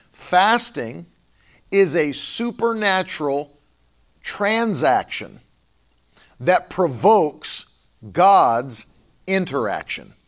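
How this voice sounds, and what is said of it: Speaks slowly and deliberately. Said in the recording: “I'm going to say it slowly.”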